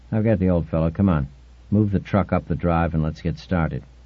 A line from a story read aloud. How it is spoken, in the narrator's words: Gellhorn said in a low voice